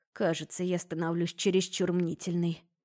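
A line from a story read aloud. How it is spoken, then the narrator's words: Muttering under breath. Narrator (Russian): пробормотала под нос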